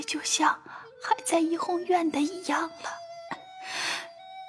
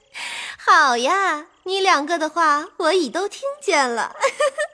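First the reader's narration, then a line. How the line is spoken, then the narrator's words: Cheerful, laughing. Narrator (Chinese): 他嫂子笑嘻嘻道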